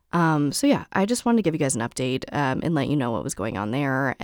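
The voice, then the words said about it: Hoarse, raspy voice. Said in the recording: “I don't see your voice going back to normal ... the Janis Joplin vibes ... I'm a little hoarse, I'm a little raspy”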